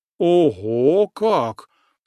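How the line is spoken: Snort. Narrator (Russian): хмыкнул атаман

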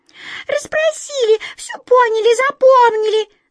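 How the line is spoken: Squeaking mice. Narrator (Russian): запищали мыши

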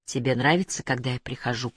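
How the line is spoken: Whispered. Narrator (Russian): прошептала она

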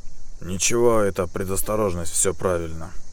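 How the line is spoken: Dismissive sigh. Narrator (Russian): отмахнулся капитан, вздохнув

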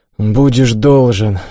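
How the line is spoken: Sigh. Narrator (Russian): вздохнул я

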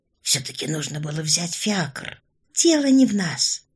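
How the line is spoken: Quiet reply. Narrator (Russian): так же тихо ответила ей Орлова

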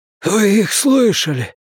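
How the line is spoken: Hoarse croak. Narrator (Russian): прохрипел он

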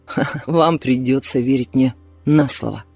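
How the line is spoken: After laughing. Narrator (Russian): отсмеявшись, сказал он

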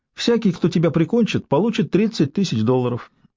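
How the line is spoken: Carefree, casual party chat. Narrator (Russian): ответил Уин беззаботным тоном, словно они вели застольную беседу на вечеринке

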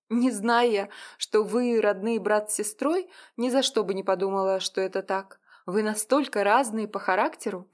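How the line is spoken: Laughing woman. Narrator (Russian): проговорила она, смеясь

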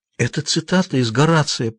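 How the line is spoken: Near whisper. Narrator (Russian): почти прошептала она

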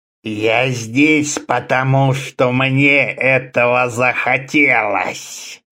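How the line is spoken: Hissed. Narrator (Russian): прошипел Старра

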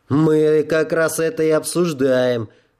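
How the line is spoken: Snapped. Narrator (Russian): огрызнулся Эйден

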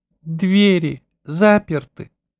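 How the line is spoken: Pleading question. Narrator (Russian): спросил он умоляющим голосом

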